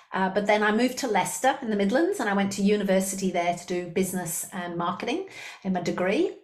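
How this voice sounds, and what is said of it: Slight Liverpool accent with Australian tones. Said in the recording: “where's her accent from? Sounds unusual. ... I do have a little bit of a Liverpool accent ... I am definitely Australian”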